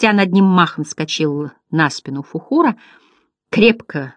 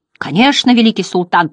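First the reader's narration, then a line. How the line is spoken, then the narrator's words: Thundering. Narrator (Russian): прогремел дракон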